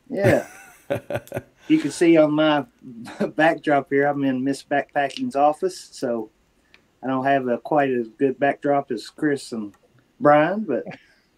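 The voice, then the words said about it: Kentucky accent. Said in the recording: “Got a little accent coming in for you. You know, Kentucky accent.”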